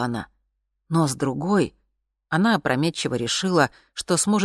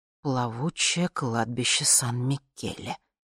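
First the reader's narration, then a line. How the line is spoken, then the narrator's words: Mother's angry whisper. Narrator (Russian): прошептала мама злым голосом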